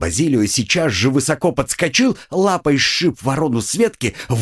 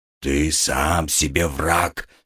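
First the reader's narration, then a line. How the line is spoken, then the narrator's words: Grumbling cat. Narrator (Russian): проворчал кот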